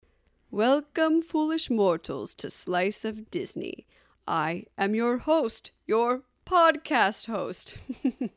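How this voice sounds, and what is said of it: Spooky theatrical voice. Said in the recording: “where you hear my spooky voice”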